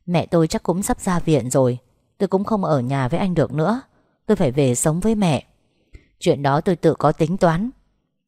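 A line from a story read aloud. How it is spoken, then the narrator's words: Dry scornful laugh. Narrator (Vietnamese): Tôi cười nhạt nói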